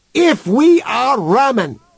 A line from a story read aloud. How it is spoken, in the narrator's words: shouted Human into the speaker's face